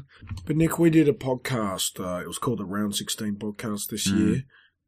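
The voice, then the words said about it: Tired, worn-out voice. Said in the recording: “I'm tired. Had a big night last night. My voice is gone.”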